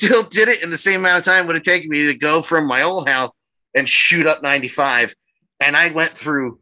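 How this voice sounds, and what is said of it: Usual voice. Nothing is said of it.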